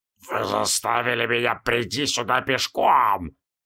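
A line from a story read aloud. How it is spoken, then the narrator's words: Barely restrained furious growl. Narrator (Russian): прорычал Шаб-Ниггурат, едва сдерживая бешенство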